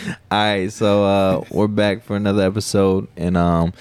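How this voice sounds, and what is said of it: Usual voice. Nothing is said of it.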